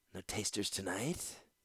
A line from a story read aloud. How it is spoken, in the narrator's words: Lord Caston sighed, smiling